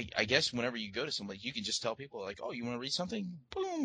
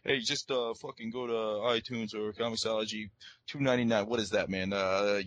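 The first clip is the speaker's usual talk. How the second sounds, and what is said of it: Bad put-on Jersey accent. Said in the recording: “That was a really bad Jersey accent thing. ... yeah, that was really awful.”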